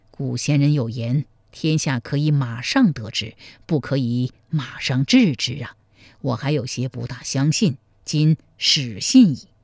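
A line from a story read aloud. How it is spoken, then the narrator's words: Sighing. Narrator (Chinese): 赵匡胤叹道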